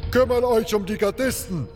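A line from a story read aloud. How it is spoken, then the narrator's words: Shout. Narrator (German): rief Gorn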